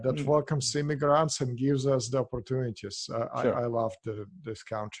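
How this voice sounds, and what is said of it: Non-native foreign accent. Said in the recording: “As you can hear from my accent, I'm an immigrant”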